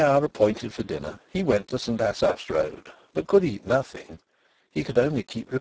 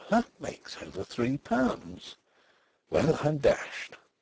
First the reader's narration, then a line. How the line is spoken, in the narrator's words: The lips of the young man on the beach moved, and he murmured